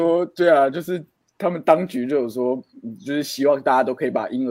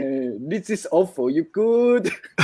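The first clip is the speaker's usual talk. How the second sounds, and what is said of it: Singaporean accent from I Not Stupid. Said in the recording (Chinese): “其实小时候不是很爱学那个小孩不笨的口音嘛”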